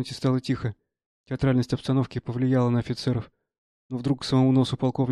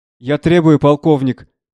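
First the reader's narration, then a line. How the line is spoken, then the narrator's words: Small person shouting. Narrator (Russian): кричал маленький Огожин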